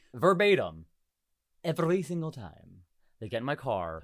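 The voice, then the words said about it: Sexy put-on accent. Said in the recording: “That was a sexy accent. Hit that again.”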